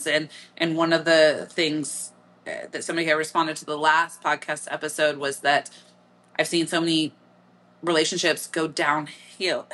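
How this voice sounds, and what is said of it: Midwestern American accent. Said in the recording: “There came my Midwestern accent, hill.”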